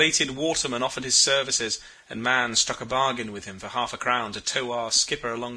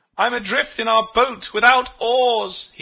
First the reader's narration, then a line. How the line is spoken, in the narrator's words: cried